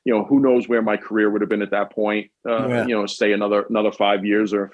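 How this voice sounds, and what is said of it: Queens New York accent. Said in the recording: “me being from Queens with an accent”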